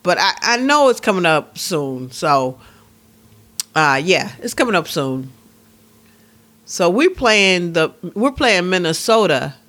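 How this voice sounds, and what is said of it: Midwestern American accent. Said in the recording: “You hear my accent, you guys? Minnesota. I am such a Midwestern.”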